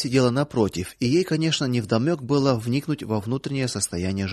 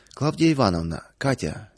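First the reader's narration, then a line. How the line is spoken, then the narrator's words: Somewhat solemn. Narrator (Russian): несколько торжественно начал Павел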